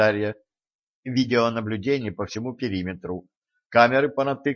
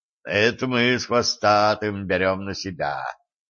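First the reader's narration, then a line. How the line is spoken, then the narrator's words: Booming drone. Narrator (Russian): прогудел Диор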